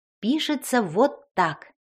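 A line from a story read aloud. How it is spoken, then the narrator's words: Plain. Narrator (Russian): сказала фея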